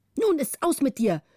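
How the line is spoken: Calling out. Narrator (German): rief

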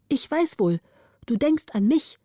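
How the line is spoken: Calling out. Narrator (German): rief Camilla

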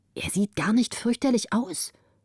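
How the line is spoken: Whisper. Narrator (German): flüsterte sie

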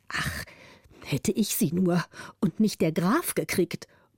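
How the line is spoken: Muttered to himself. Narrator (German): murmelte der Zweite für sich

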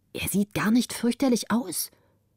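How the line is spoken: Whispering. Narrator (German): flüsterte sie

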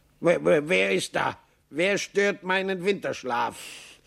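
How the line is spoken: Grumpy call. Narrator (German): eine Stimme, die Maxl zu kennen meinte, rief brummig

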